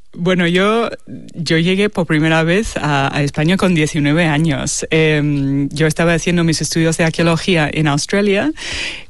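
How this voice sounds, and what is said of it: Australian accent speaking Spanish. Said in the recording (Spanish): “tienes un acento australiano ... el acento es de Sydney. No me lo voy a quitar nunca.”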